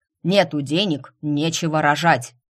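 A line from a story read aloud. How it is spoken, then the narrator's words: Barking. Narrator (Russian): рявкнул мистер Сандерс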